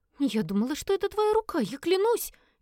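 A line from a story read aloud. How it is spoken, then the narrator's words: Frightened squeak. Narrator (Russian): испуганно пропищала Элис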